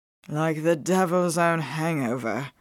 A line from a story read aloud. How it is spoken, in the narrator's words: she grumbled